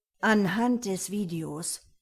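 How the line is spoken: Angry growl. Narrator (German): knurrte Henning erbost

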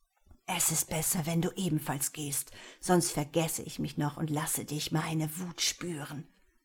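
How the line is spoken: Hissing. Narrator (German): sagte er und fauchte

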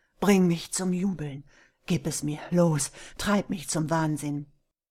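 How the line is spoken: Panting. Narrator (German): keuchte er

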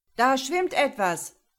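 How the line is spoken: Boatswain calling out. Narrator (German): rief Evans, der Bootsmann

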